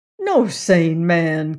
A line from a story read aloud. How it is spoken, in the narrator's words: continued Reed eagerly